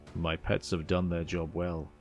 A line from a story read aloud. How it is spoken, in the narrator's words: he chuckled quietly to himself